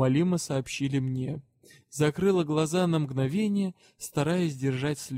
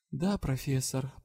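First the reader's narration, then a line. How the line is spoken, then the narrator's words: Tearful mumble. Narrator (Russian): пробормотала я, украдкой вытирая слезы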